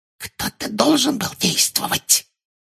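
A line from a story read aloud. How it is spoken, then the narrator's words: Whisper. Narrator (Russian): прошептала Амбридж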